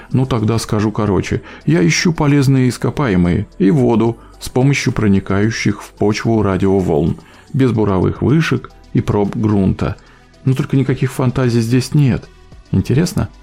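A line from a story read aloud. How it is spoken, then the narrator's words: Plain. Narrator (Russian): спросил я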